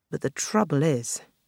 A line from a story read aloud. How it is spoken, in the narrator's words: Marina murmured